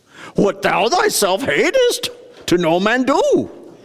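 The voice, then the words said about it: Weak Yoda impersonation. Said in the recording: “That wasn't a very good Yoda impersonation”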